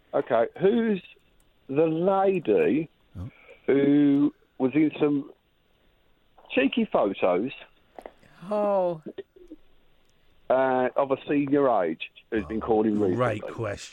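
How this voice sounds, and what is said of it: Brummie accent. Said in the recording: “I couldn't understand ... Brummie accent?”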